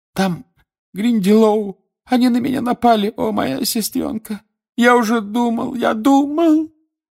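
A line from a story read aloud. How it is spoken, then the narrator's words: Sobbing. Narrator (Russian): она разрыдалась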